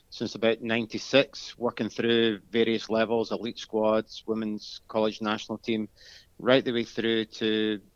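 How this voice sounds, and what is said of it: Scottish Glasgow accent. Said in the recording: “you may be able to tell already from my accent ... born and bred in Glasgow, Scotland”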